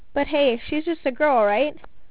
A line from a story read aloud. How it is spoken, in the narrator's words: Ryan chuckled